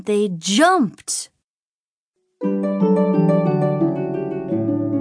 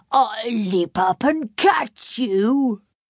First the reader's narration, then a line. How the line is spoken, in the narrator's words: a tiger snarled and said